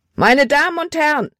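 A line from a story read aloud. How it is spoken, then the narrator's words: Shouted. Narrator (German): schrie er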